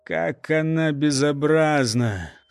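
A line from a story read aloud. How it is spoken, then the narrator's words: Horrified strained utterance. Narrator (Russian): с ужасом выдавил родитель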